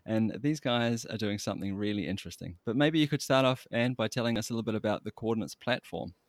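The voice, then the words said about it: New Zealand accent. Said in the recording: “I'm from New Zealand, as you might have guessed from my accent”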